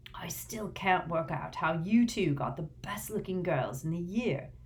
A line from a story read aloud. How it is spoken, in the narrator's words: muttered Dean